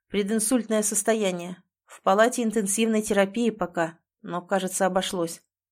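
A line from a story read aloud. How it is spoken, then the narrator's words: Dull, muffled announcement. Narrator (Russian): глухо сообщает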